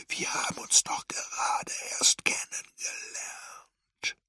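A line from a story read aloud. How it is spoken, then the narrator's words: Whisper. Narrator (German): flüsterte er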